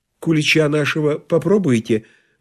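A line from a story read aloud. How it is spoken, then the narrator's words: Timid question. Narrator (Russian): робко спросила хозяйка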